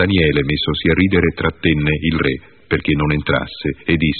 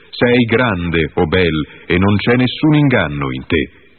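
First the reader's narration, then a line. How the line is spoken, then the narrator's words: Loud shout. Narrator (Italian): gridò a gran voce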